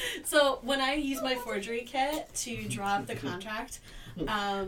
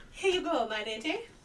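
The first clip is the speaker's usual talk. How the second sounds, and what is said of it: Imitates a noble accent, spot-on. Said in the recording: “I talk in the noble speech back to her ... She does a pretty spot-on impression of your accent.”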